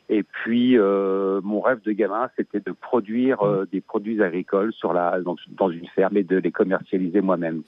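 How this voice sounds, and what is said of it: Slight Belgian French accent. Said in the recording (French): “j'ai un petit accent, mais je suis bien en Belgique”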